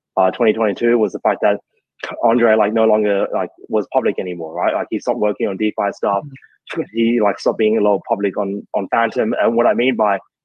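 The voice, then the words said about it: Australian accent. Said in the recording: “the accents, because now you've got an Australian interviewing an Australian, so it's like double bad accent”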